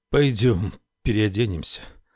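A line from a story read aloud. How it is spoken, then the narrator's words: Trembling voice. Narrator (Russian): произнес он дрожащим голосом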